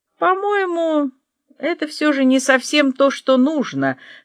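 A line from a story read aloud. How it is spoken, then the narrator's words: Uncertain. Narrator (Russian): как-то неуверенно проговорил он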